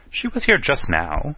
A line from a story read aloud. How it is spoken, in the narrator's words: said a little impatiently